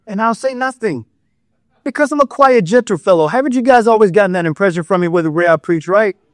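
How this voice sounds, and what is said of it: Sarcastic, joking tone. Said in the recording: “I am joking for those who haven't figured it out. I am being sarcastic.”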